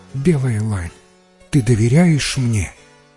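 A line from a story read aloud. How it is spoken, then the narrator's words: Gentle speech. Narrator (Russian): ласково сказала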